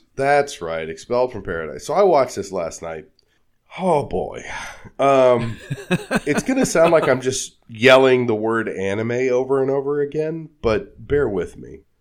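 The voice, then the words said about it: Sick, cold-affected voice. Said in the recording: “I'm getting over a cold, so please excuse my voice”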